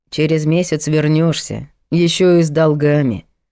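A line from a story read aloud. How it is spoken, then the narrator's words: Gloomy prophecy. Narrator (Russian): мрачно пророчил брат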